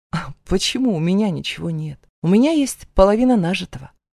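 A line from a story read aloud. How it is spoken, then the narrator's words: Calm reply. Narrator (Russian): откликаюсь спокойно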